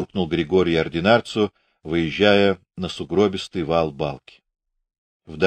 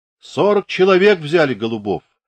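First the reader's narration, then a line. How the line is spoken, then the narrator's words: Distant shout. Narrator (Russian): крикнул издали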